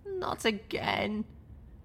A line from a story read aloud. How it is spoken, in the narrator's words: I groaned